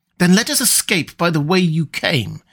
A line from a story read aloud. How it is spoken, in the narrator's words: exclaimed Murillo